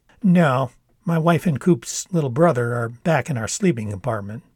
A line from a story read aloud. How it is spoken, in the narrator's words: Dad laughed just a little bit, then said